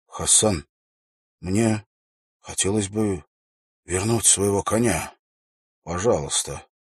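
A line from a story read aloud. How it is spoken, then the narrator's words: Quiet. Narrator (Russian): Уилл произнес тихим голосом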